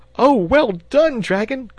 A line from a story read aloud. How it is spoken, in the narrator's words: cried the boy, excitedly